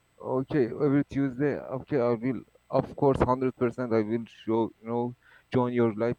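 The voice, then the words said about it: Iranian accent in English. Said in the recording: “I knew it was Iran. I heard it. I was like, I know that accent.”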